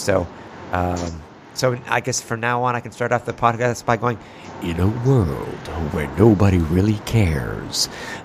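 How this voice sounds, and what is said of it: Lowered, congested voice. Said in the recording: “a little bit of a cold ... a lower voice equals a sexier voice ... a radio voice”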